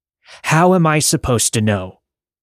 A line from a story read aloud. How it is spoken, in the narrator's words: yelled